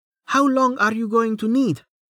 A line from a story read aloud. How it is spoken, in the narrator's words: She shouted